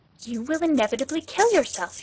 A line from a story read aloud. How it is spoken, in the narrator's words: cried